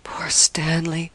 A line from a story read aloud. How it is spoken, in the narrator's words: she murmured, with a kind of agony